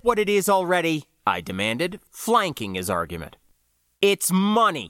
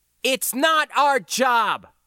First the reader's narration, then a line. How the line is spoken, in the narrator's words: I shouted at him